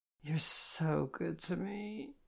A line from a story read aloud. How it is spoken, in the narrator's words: I groaned